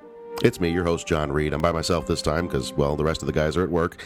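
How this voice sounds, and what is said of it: Sick, deeper than usual voice. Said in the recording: “as sick as a dog ... my voice sounds a little deeper than usual ... the really deep voice”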